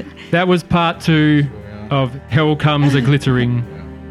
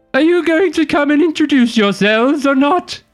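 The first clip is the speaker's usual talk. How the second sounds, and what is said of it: Character voice with an accent. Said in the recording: “I love the accent.”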